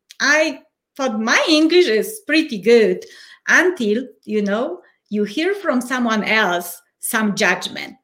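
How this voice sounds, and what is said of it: Polish accent in English. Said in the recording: “your accent after immigrating from Poland in 2011”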